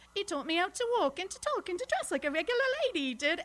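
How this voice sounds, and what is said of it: Cockney English accent. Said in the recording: “So I started out Cockney.”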